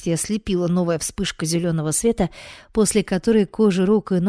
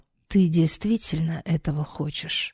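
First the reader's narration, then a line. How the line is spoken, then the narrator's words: Hoarse whisper. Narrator (Russian): хрипло прошептал Алером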